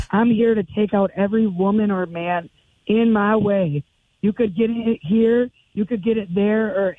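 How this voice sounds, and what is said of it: Hoarse, strained voice. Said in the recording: “I've been cheering and screaming on watching wrestling and stuff, so my voice is bad.”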